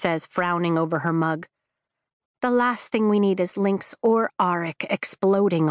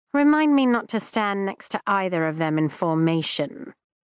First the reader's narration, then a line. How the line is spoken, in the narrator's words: Kat drawls